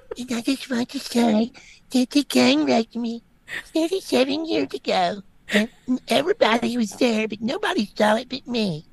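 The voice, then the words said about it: Little girl voice. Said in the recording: “I'm going to talk in my little girl voice. Kat, you do that better than I do.”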